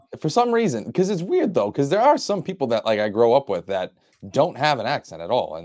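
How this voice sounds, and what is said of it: Boston accent. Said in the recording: “you can do a Boston accent”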